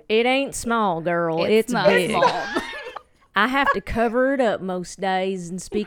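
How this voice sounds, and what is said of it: Slight Southern American accent. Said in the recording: “I detect a small Southern accent. ... Just a tiny one.”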